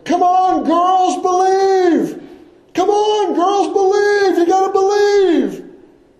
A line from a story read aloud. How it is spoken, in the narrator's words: he started yelling